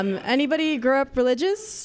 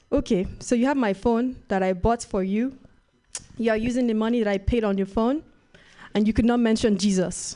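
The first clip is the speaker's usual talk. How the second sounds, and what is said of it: Put-on Nigerian accent. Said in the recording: “Nigerian accent”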